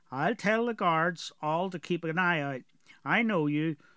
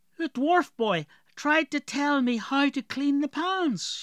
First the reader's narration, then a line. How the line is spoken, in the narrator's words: she exclaimed